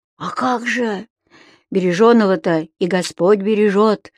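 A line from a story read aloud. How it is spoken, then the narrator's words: Peasant-like sigh. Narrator (Russian): по-мужиковски вздохнул Леонтий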